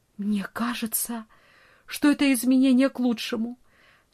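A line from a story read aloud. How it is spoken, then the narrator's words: Trembling voice. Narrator (Russian): дрожащим голосом она произнесла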